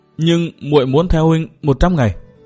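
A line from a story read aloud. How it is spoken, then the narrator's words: Tearful hesitant speech. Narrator (Vietnamese): Nàng ấp úng nói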